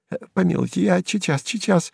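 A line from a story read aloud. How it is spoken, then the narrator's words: Stammering babble. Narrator (Russian): залепетал, заикаясь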